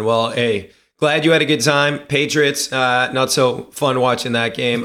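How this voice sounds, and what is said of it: Hoarse, losing voice. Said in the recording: “losing my voice”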